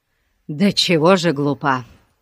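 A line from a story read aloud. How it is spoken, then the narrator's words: Sighing. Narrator (Russian): вздохнул ее брат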